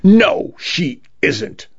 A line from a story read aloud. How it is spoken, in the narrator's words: Vacuole spat